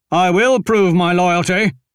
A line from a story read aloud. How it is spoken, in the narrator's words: Jagdish shouted to no one in particular